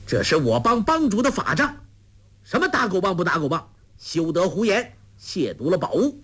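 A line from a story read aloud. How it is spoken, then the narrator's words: Loud. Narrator (Chinese): 杨康听他接连四句之中都提到打狗棒，直到他是出言轻舞，大声说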